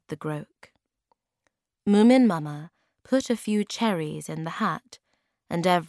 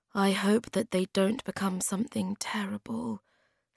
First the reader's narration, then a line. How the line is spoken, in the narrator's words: said Snufkin quietly to the Hemulin